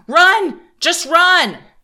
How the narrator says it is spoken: Seal broken, I screamed

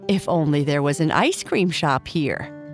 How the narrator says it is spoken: Kai Kai said, laughing

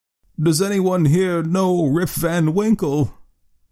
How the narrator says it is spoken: exclaimed two or three

